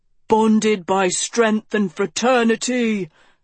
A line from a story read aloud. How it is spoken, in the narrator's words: the boys bellowed